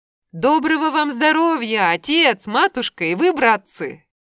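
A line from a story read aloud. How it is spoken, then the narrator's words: Shouted. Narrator (Russian): Янчик-мизинчик закричал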